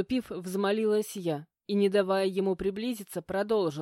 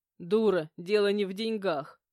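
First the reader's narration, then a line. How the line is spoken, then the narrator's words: Short guffaw. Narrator (Russian): хохотнул Александр Яковлевич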